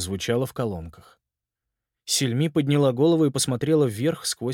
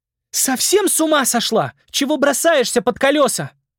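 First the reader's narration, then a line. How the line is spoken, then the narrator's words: Shouting. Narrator (Russian): крикнула Сельми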